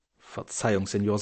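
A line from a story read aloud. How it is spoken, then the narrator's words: Plain. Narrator (German): sagte der andere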